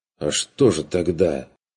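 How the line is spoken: Bewildered objection. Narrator (Russian): Растерянно возразил тот

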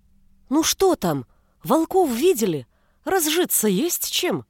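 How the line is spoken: Exclaimed in chorus. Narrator (Russian): воскликнули все хором

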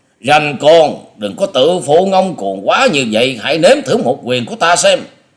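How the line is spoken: Old man's roar. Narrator (Vietnamese): Lão thầy Lôi Điểu Nhiếp Hồn trợn mắt gầm lên

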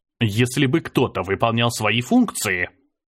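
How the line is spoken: Grumbled. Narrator (Russian): пробурчал я

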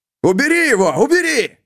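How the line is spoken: Panicked shout while struggling. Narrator (Russian): крикнул Груди, пытаясь избавиться от волка, вцепившегося в протез

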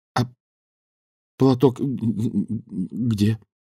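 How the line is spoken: Stammering question. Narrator (Russian): заикаясь, спросил Данилов

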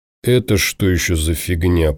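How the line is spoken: Muttering. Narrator (Russian): пробормотал Тимур

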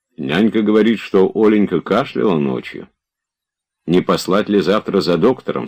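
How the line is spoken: Plain. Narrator (Russian): спросил он

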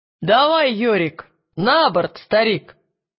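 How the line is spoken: Shout. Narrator (Russian): крикнул Ли Скорсби

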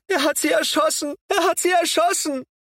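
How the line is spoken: Repeated screaming. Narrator (German): schrie sie immer wieder

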